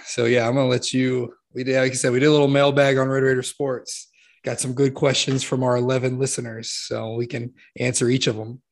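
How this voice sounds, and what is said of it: Strained, worn-out voice. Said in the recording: “I can barely talk ... I've been talking all day. That's probably why my voice is.”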